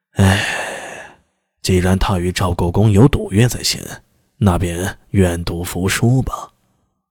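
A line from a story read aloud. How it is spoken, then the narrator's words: Sighing. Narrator (Chinese): 楚遂良也叹息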